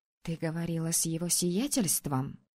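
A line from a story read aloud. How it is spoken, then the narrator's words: Whispered question. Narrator (Russian): шепотом спросила подруга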